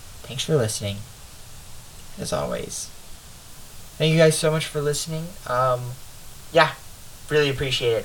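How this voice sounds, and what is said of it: Congested, stuffy-nosed voice. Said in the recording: “my nose has become completely stuffed since the beginning of this episode ... I'm sure you can tell the difference in my voice.”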